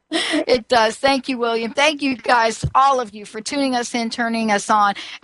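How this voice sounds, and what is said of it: Mixed New York and South Carolina accent. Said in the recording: “what you're hearing is a half New York and a half, you know, South Carolina accent here”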